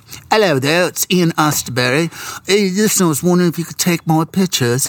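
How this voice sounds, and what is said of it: Bad put-on English accent. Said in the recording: “This is a really bad English accent”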